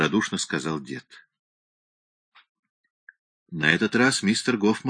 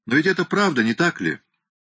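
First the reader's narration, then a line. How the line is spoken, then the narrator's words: Cheerful. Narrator (Russian): весело сказал старший инспектор Дэви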